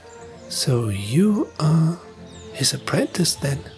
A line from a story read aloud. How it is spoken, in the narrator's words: Jonathan asked in an awestruck whisper